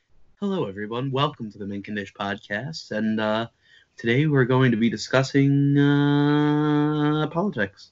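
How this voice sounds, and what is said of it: Mock public radio host voice. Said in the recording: “NPR voice”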